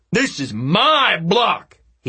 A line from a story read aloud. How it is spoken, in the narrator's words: he yelled